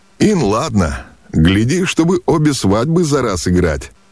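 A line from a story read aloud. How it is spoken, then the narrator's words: Laughing young prince. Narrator (Russian): засмеялся юноша-князь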